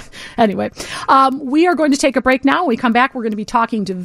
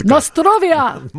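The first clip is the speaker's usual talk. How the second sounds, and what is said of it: Put-on Russian accent. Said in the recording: “I was doing my Russian accent. I was doing it very well.”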